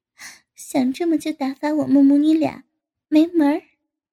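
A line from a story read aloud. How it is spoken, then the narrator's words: Laughing. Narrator (Chinese): 笑道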